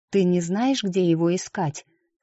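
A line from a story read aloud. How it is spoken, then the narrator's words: Plain. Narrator (Russian): спросила Лючия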